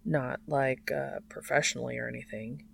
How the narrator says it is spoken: Dean mumbles

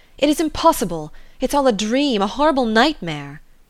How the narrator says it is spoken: he cried

